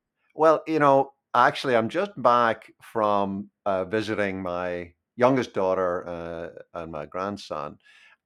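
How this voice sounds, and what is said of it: Northern Irish accent. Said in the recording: “you are not affecting a Northern Irish accent ... stop talking in this stupid American accent”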